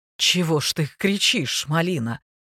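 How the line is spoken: Hoarse, surprised. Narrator (Russian): проговорил хрипло, с удивлением

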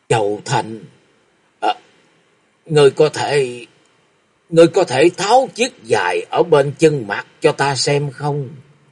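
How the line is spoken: Overcome, trembling voice. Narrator (Vietnamese): Người đàn bà trung niên như quá xúc động, giọng run run nói

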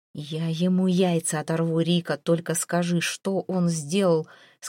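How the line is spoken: Hissed through teeth. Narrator (Russian): сквозь зубы цедит Зейн

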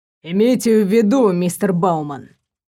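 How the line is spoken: Calm, suppressed anger. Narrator (Russian): спокойно заговорил, но в карих глазах плескался еле сдерживаемый гнев

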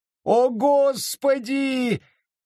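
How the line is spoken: Convulsive howl. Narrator (Russian): взвыл он, забившись точно в подучий

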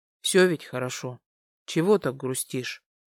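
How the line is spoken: Soft close mumble. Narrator (Russian): Пробормотал он мне куда-то в район макушки

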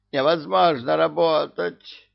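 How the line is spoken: Moan. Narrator (Russian): Простонал он

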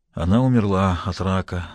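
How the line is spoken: Tragic voice. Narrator (Russian): закончил он трагическим голосом

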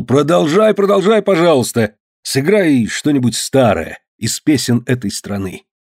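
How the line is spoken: Exclamation. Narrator (Russian): Кручинин воскликнул

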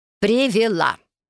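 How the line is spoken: Loud announcement. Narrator (Russian): громко сообщила Салли

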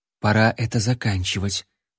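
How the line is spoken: Whisper. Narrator (Russian): прошептала принцесса

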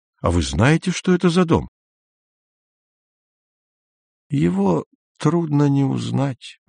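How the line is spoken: Quiet old man. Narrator (Russian): тихо сказал старик

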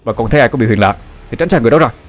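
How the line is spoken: Hurried shout. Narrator (Vietnamese): Anh Út vội la lên

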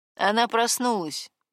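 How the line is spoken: Gloomy tone. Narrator (Russian): мрачным тоном сообщил

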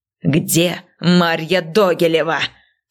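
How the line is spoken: Enraged man's growl. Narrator (Russian): прорычал выходящий из себя мужчина

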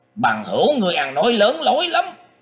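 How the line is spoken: Angry shout masking fear. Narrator (Vietnamese): Quân Hải Thần nghe thế thì không khỏi bắt ớn lạnh cả tâm can, nhưng ngoài mặt vẫn lộ vẻ hầm hầm quát to lên rằng

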